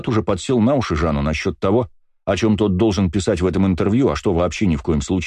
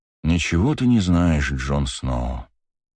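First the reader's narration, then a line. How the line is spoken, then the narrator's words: Sighing. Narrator (Russian): вздохнул я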